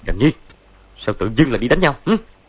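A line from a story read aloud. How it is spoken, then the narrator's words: Shouting. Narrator (Vietnamese): Võ Tâm Thông quát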